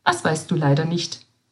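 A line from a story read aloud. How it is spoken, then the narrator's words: Plain. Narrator (German): fragte Schwester Basilea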